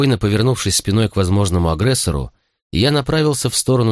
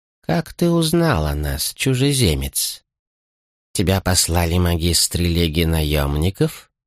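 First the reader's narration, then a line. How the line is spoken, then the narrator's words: Calm old man. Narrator (Russian): Спокойно заговорил старец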